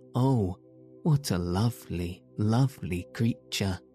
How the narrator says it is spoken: the girl ran up to the radiant daughter of the rainbow and exclaimed

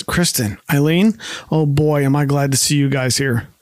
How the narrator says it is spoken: Ross sighs with relief and says

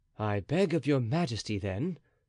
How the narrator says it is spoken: said Athos calmly

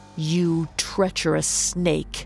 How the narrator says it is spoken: he snarled

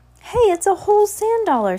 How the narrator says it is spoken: Sunny cried

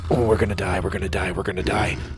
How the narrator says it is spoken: Sawyer whispered

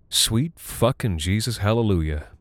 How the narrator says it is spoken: Lizzie muttered

